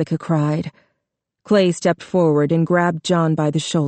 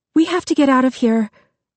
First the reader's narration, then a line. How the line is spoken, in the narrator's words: Jessica said urgently